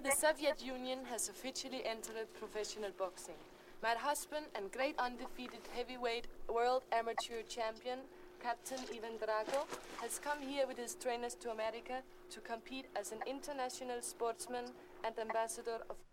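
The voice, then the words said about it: Poor put-on Russian accent. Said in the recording (Danish): “selv den der dårlige russiske accent kan hun heller ikke... de prøver at give hende et dårligt russisk accent, når hun har så dårligt et dansk accent, eller engelsk accent”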